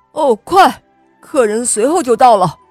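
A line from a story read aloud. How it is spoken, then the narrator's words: Shouting. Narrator (Chinese): 主人冲他喊道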